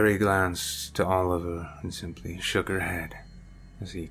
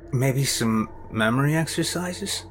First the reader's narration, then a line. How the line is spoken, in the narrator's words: Sam said, almost pleadingly